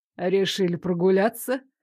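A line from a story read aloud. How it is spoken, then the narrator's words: Mocking question. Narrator (Russian): насмешливо поинтересовался он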